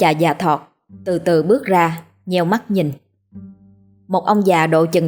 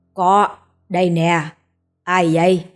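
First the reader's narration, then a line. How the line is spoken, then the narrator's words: Deep gruff distant voice. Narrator (Vietnamese): Một giọng nói ồm ồm từ sau chòi lá phát ra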